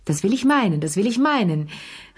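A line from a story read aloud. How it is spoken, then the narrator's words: Calling out. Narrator (German): rief Madame Pelou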